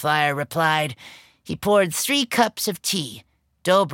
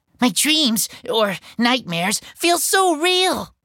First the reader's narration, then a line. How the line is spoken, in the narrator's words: I gasped